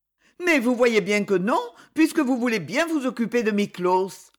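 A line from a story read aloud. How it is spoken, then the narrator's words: Moved, protesting tone. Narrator (French): dit-elle d'un ton de protestation émue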